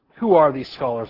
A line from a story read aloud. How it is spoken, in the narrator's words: I said